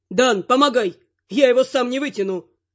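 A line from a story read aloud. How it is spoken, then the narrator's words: Mage shouting. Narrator (Russian): крикнул маг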